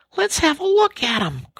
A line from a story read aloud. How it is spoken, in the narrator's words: cried the rat